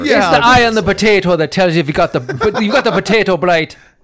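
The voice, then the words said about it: Put-on accent. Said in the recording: “Do that accent all the time.”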